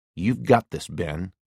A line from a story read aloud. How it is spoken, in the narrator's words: murmured